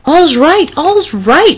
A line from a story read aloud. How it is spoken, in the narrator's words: he cried